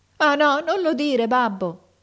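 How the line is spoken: Shouted, bursting into tears. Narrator (Italian): gridò il figliuolo scoppiando in pianto

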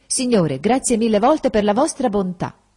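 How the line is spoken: Grateful exclamation. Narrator (Italian): esclamò

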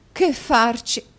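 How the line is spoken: Exclamation. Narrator (Italian): esclamò la signora Nickleby

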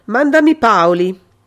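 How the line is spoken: Shout after someone. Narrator (Italian): Il commissario gli gridò dietro

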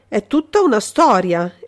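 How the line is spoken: Exclamation. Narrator (Italian): esclamò Altieri

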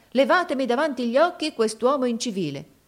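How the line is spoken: Exclaimed. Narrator (Italian): esclamò essa

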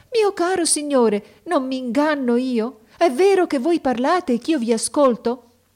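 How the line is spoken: Surprised sorceress exclaims. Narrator (Italian): A queste parole che non si aspettava, la maga esclamò

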